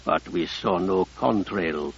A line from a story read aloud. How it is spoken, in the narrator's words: Abdi Kadir said calmly